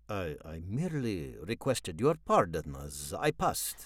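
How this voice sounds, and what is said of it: Foreign accent. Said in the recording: “That voice! You have an accent. You're a foreigner!”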